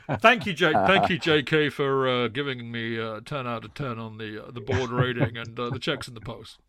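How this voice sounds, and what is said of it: Imitates another person's voice. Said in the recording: “What accent's that? ... It's a very, very poor Bruce Buck impression. It's actually a very good impression. ... You got the draw very well.”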